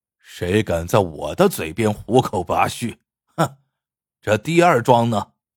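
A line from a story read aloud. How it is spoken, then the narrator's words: Loud laughter. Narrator (Chinese): 鳌拜放声大笑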